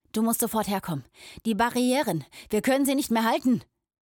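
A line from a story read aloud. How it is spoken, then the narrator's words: Barked bluntly into ear. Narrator (German): bellte sein Freund und Mentor Lox ihm ohne Umschweife ins Ohr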